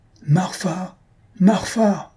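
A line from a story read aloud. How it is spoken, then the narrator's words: Loud calling out. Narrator (French): s'écria le professeur à pleine voix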